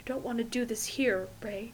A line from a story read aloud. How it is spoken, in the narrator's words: Fraser murmurs